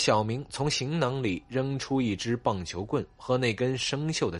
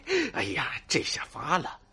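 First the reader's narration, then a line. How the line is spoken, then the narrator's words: Excited laughing. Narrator (Chinese): 季布少爷一脸兴奋的笑道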